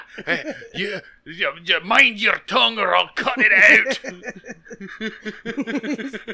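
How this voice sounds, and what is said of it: Put-on Russian-Scottish accent. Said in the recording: “radioactive Russian, Scottish accents”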